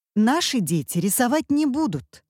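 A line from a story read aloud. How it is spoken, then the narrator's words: Stern mother. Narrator (Russian): сказала строго мама-отличница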